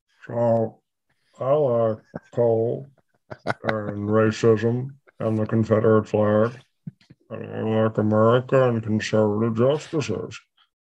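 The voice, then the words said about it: Mitch McConnell impression, Kentucky accent. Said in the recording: “I'm going to do a side by side for you. Mitch McConnell and Johnny Depp. ... So that's one accent from Kentucky.”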